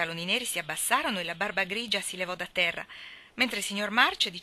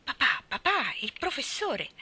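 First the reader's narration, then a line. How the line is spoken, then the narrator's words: Scandalized exclamation. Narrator (Italian): Joe esclamò scandalizzata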